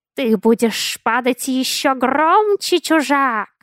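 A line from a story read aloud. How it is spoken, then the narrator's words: Shrill hiss. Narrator (Russian): пронзительно зашипел Катоэт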